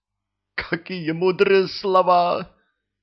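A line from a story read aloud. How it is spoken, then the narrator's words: Thief sobbing. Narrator (Russian): Вор зарыдал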